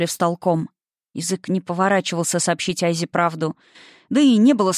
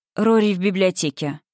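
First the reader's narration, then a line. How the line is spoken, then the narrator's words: Cold reply. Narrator (Russian): холодно ответил Льер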